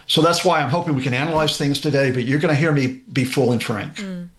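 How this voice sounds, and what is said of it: American accent. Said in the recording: “You can tell from the accent that I was born and raised there.”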